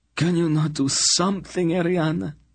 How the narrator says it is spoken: he pleaded, tears streaming down his face

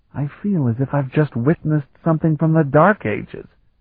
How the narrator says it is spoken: Kalton whispered to Sparhawk

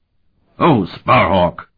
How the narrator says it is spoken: the fat man bellowed

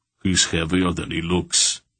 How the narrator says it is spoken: the big man grunted

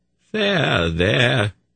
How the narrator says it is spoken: he said in a crooning voice

